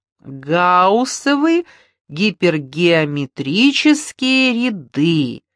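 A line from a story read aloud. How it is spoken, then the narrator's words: Singsong chanting. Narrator (Russian): нараспев повторяла Маруся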